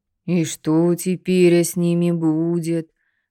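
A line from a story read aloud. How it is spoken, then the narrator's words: Upset deep bass. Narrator (Russian): расстроенно прогудела басом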